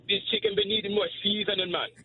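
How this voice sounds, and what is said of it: Put-on Jamaican accent, cooking-show style. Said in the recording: “I have to do like a Jamaican accent, like I'm on a cooking show”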